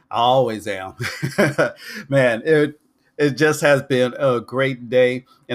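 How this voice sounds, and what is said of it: Excited, upbeat voice. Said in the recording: “as you can tell in my voice, I am excited”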